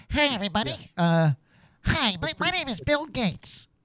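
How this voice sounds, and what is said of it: Nerdy Bill Gates impression. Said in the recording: “Let me hear your Bill Gates. ... I guess I'll do kind of a nerd voice.”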